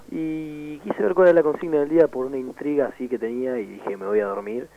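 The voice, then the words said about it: Congested voice of someone with a cold. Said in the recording (Spanish): “Acá, creo que por morirme ... Está re enfermo este pibe ... Tengo más voz de hombre resfriado”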